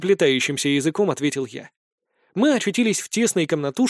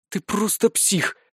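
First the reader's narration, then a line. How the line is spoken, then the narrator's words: Admiring exhale. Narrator (Russian): восхищенно выдохнула Вика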